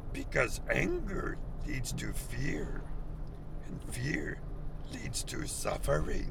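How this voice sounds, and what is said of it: Bad imitation of Yoda's voice. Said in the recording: “bad Yoda impersonation”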